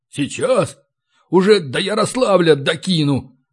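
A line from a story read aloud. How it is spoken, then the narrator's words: Angry hoarse rasp. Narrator (Russian): злобно прохрипел гном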